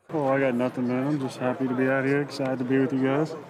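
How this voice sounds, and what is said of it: Southern twang. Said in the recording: “speak with a Southern accent ... he's got an accent now ... He's like, got this twang. ... He's got this like twang.”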